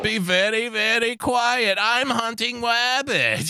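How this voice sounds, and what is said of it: Elmer Fudd cartoon voice impression. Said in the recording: “It was Elmer fucking Fudd.”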